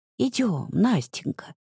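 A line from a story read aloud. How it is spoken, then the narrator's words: Grandmother whispering. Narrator (Russian): шепнула бабушка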